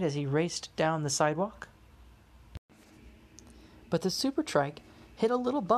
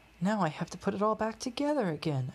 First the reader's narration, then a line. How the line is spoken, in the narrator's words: Alex said sadly